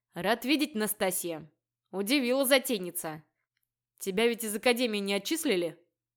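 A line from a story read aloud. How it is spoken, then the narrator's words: Stern. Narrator (Russian): Строго уточнил он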